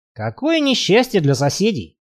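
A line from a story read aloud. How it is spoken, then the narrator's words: Snorting. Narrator (Russian): хмыкнул Барри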